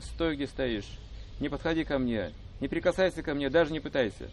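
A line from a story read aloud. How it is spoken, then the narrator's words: Exclaimed. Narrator (Russian): Радхика нахмурилась и воскликнула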